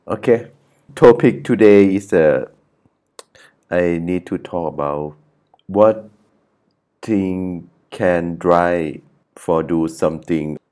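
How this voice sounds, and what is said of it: Thai-accented English. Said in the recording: “sorry about accent ... I'm original Thai”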